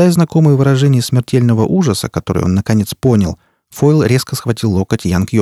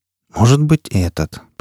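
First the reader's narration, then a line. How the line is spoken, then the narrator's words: Muttering. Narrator (Russian): пробормотал Фойл Робин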